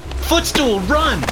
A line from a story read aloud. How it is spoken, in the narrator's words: shouted as I felt myself being dragged away